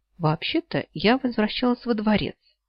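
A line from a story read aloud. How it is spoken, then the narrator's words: Quiet reply. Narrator (Russian): негромко ответила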